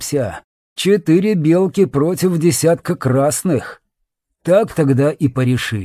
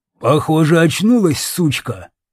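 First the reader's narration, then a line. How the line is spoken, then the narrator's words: Harsh bark. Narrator (Russian): рявкнул Лом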